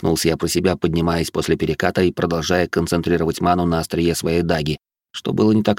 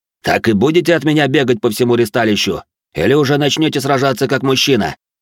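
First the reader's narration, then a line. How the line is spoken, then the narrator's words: Bark. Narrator (Russian): Рявкнул он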